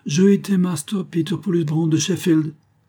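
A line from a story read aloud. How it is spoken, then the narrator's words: Curt retort. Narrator (French): riposta sèchement le pot rouge de la Grande-Bretagne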